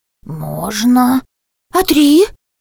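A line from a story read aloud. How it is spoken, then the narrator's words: Incredulous exclamation. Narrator (Russian): Не веря ушам, воскликнула гостья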